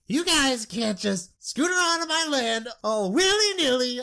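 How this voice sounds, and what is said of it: Cartoon clown-like character voice. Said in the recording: “I can't do his voice. ... Sounds like Krusty the Clown.”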